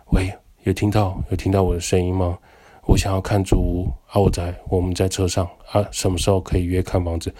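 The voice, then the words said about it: Very quiet, hard-to-hear phone voice. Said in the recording (Chinese): “声音超小声”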